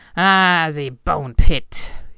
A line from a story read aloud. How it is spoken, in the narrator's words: Hubert spat